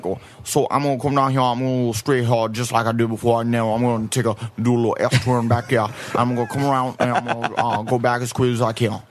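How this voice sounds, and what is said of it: Exaggerated Southern drawl impression. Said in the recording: “talk like a fucking character from The Waterboy or something”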